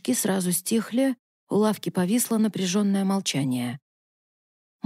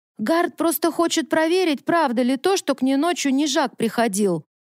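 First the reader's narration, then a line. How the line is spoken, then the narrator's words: Shouted from the back row. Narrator (Russian): выкрикнул с дальнего ряда Мальвал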